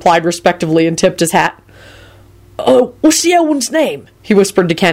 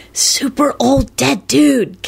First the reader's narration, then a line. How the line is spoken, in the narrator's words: Kenny hissed back